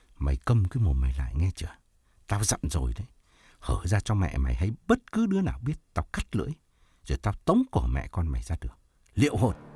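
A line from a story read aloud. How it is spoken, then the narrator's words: Hissing through clenched teeth. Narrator (Vietnamese): rít hai hàm răng trợn mắt nói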